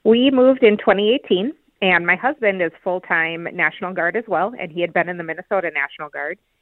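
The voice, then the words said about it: Slight Minnesota accent. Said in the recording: “I noticed a slight, let's just say, Minnesota accent. ... it is very obvious ... It's a nice accent.”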